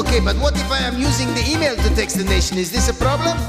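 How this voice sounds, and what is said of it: Put-on Cuban accent, faintly Jamaican. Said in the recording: “we're testing the waters with the Cuban accent... It starts out sounding faintly Jamaican”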